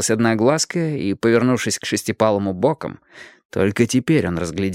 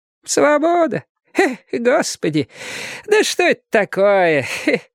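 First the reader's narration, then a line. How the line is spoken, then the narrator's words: Laughing question, female. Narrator (Russian): спрашивала одноглазка и смеялась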